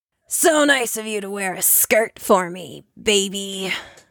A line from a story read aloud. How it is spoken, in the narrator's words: rasps